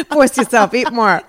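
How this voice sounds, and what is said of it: Put-on New York Jewish mother voice. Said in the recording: “Why does the Jewish mom always have a New York accent?”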